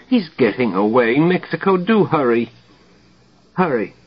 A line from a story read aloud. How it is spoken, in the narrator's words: Dimly the doctor above whimper